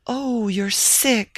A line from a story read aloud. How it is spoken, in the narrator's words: she exclaimed